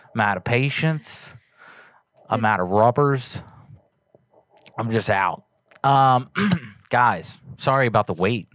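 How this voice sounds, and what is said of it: Breathless, winded speech. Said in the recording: “I'm out of breath.”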